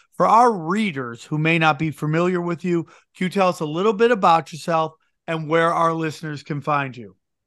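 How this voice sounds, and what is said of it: Slight East Coast American accent. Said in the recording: “I'm picking up on a little bit of an accent there ... I'm going to venture to guess you're on the East Coast as well”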